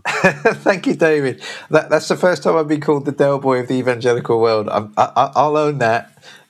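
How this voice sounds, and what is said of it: London home counties English accent. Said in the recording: “you've got that great kind of London home counties accent”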